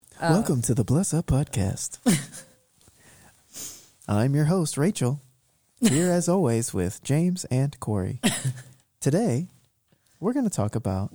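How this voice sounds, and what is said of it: Smooth late-night radio host voice. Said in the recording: “making me sound like a nighttime like talk show host”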